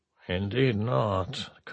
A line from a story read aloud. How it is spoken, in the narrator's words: Kathara muttered, unheard by anyone but Antonov